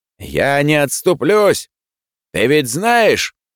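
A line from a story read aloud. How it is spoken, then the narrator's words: Frenzied yell. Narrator (Russian): исступленно заорал вслед ему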